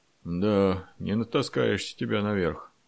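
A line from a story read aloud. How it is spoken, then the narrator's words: Breathless grumble. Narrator (Russian): пробурчал запыхавшийся Федор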